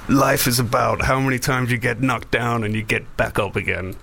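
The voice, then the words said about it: Imitates another person's voice. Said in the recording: “terrible Stallone impression”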